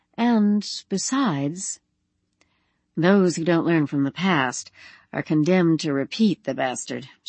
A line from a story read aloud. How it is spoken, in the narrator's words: she muttered